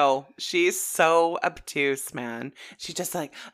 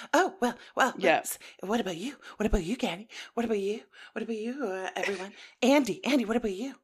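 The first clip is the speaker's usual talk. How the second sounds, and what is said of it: Breathless Sheree impression. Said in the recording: “Always what about you? And so breathless. I've always loved your Sheree impression.”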